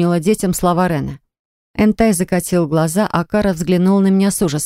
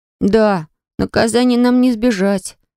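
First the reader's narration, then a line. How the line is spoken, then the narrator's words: Sad sigh. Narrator (Russian): с печалью вздохнул Энтай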